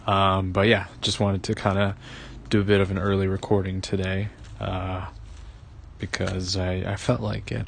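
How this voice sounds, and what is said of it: Tired-sounding voice. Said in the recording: “I'm a little tired, if you can't tell by my voice”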